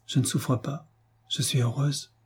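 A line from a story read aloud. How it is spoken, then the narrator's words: Very soft voice. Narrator (French): d'une voix très douce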